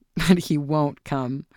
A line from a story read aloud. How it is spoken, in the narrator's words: her son laughed